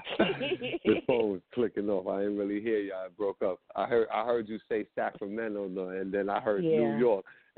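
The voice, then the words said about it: New York accent. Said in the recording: “I'm in New York. ... I know I can hear your accent”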